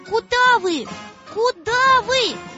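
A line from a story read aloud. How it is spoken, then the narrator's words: Shouted. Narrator (Russian): закричала Маша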